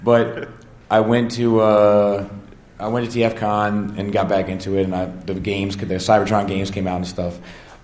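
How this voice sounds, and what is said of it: Hoarse, strained voice. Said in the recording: “pardon my voice, I've been yelling all weekend ... I think we can all hear you there.”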